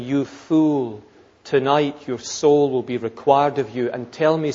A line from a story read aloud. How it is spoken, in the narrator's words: says God